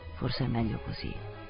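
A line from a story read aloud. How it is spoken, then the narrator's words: Laboured mumbling. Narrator (Italian): Bofonchiò faticosamente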